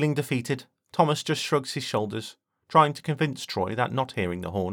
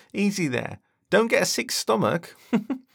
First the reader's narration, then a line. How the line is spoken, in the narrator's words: William says with a laugh